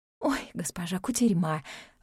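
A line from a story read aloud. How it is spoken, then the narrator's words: Sighing. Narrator (Russian): вздохнула одна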